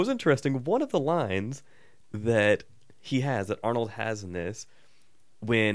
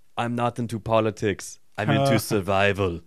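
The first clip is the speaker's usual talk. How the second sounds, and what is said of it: Poor imitation of another person's voice. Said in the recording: “That was a terrible Arnold impression”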